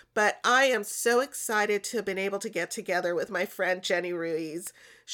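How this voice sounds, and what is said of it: Sick-sounding voice. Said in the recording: “I'm also a little under the weather, so you're going to hear it in my voice”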